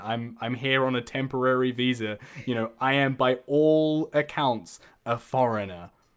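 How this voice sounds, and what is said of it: New Zealand accent. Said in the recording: “being from New Zealand ... I have a foreign accent”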